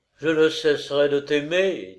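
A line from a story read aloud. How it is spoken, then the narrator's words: Sad. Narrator (French): dit-il tristement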